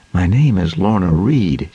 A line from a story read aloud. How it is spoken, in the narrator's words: she began hesitantly